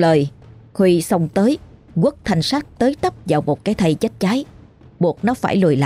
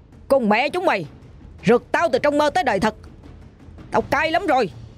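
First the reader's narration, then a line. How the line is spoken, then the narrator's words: Loud shout. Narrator (Vietnamese): anh quay lại quát lớn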